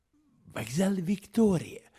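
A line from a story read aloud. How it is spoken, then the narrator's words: Quiet. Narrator (Russian): сказал Холмс негромко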